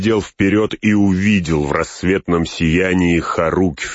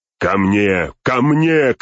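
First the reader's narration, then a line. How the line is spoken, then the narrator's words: Shouted. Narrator (Russian): крикнул Теоден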